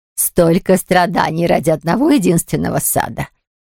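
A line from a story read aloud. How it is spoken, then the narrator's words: Flippant tone. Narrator (Russian): Сказала она легкомысленным тоном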